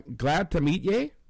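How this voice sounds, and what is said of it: Attempted Scottish accent. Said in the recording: “That's a good Scottish accent... good attempt... that was a really good Scottish accent you did.”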